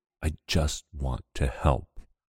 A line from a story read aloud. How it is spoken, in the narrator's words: rasps